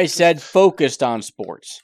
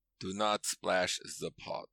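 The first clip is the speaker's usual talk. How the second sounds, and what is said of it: Imitates a movie character's terrible accent. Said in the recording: “terrible ... accent”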